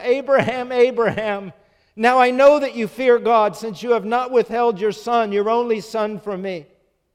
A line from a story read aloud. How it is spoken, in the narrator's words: God called out to Abraham